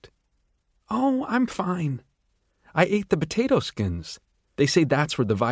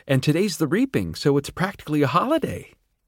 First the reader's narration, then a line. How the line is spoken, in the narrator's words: she said cheerfully